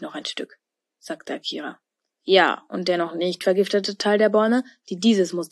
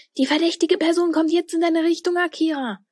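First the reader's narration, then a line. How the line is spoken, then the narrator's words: Excited call over walkie-talkie. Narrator (German): rief Tilda da aufgeregt durch ihr Walkie-Talkie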